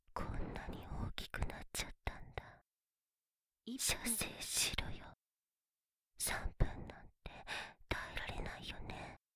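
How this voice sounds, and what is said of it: Whispering close to the ear. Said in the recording (Japanese): “耳元の方が興奮する ... ささやきでこのまま言葉攻めしてあげる”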